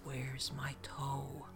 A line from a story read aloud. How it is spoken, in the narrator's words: it sounded like a whisper